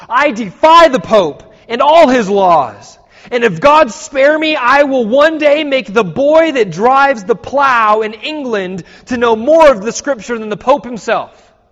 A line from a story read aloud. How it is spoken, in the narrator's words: Rising in indignant protest, Tyndale cried